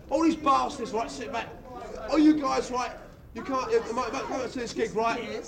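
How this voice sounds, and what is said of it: Shouting angrily. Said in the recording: “I'm shouting my mouth out only because I'm annoyed”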